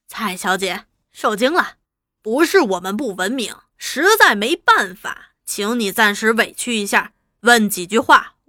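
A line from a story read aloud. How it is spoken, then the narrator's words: Smiling, genial. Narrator (Chinese): 朱大同 笑口吟吟地说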